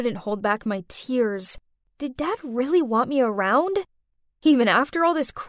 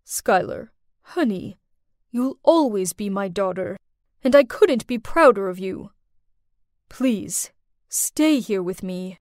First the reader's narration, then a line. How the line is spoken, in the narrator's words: froze for a few seconds, then calmly said